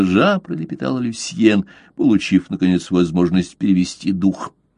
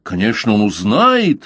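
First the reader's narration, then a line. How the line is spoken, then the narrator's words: Fervent young man's exclamation. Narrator (Russian): с жаром воскликнул юноша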